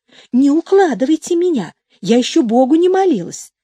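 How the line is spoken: Mildly annoyed exclamation. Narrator (Russian): с легкой досадой воскликнула

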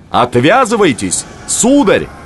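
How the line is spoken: Shout torn by wind. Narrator (Russian): Он крикнул, и ветер разорвал его слова

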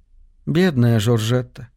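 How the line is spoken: Sighed. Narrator (Russian): вздохнула Ливи

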